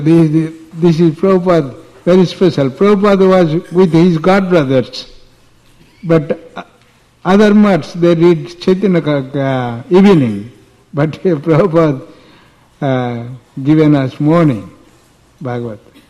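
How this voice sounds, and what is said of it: Indian Bengali accent in English. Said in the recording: “my accent, English accent in Bengali, Indian”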